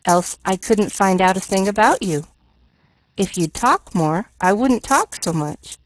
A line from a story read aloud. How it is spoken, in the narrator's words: retorted Pollyanna calmly